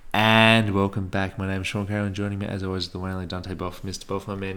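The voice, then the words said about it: Exaggerated podcast host voice. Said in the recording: “my best podcast voice”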